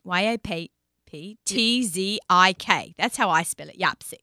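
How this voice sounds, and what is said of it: Speaks with a noticeable accent. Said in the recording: “I know I sound funny spelling things with my accent.”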